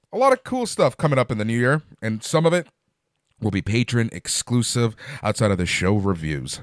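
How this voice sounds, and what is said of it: Strained, worn-out voice. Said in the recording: “My voice is done. It's really starting to go.”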